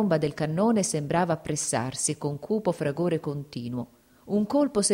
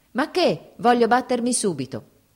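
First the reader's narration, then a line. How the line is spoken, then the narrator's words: Grim shout. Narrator (Italian): gridò con aria torva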